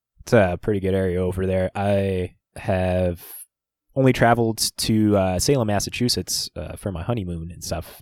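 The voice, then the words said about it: North Dakota Midwestern accent. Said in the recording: “We're from Fargo, North Dakota here. I don't know if you can tell by our accents”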